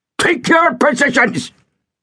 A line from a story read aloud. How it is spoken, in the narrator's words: he barked